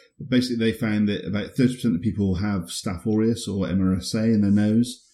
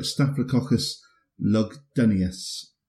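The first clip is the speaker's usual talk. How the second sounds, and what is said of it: Slight put-on Scottish accent. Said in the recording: “I said that with a bit of a Scottish accent”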